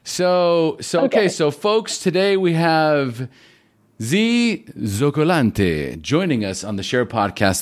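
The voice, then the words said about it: Put-on Italian accent. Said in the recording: “That's Italian. That's my best Italian accent. I could probably do better”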